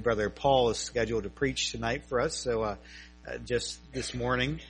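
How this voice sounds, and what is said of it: Slightly strained voice. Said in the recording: “my voice is a little bit strained ... allergies”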